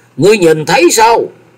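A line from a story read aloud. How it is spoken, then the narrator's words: Sudden loud shout. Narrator (Vietnamese): Từ Thăng bỗng cao giọng quát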